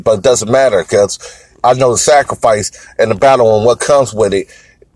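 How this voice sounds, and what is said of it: Slightly raspy voice. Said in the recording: “fell under the weather. So that's why my voice is a little bit raspy”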